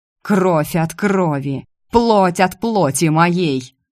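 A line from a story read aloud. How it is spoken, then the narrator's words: Shouting. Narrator (Russian): кричал отец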